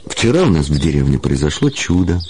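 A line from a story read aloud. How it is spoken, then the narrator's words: Plain. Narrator (Russian): сказала она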